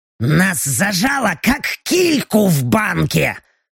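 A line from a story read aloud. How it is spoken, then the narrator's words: Angry reply. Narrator (Russian): Зло отозвалась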